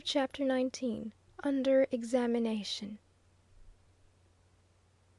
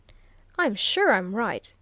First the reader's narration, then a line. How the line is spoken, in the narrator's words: he exclaimed